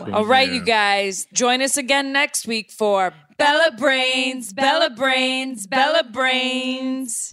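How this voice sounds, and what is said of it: Speaks with a cute accent. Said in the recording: “His accent is like the cutest”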